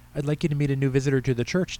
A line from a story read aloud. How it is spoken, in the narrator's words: Tammy said